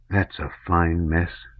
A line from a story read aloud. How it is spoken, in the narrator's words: said Fyodor in a low voice